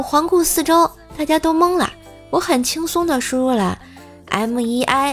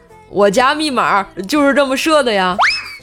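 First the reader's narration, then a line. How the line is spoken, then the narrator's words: Smiling. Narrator (Chinese): 我笑着说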